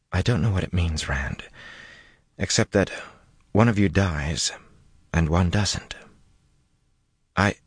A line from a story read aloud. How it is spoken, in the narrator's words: her mouth tightened worriedly, and she went on in a very small voice